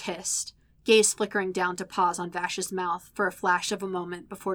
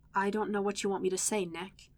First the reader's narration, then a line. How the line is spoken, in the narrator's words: Vash admitted quietly